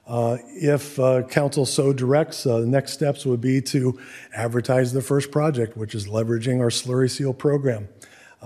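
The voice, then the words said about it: Hoarse, strained voice. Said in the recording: “I'm sorry I'm losing my voice.”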